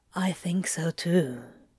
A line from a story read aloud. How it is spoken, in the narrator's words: Crowley whispered back with a mock pout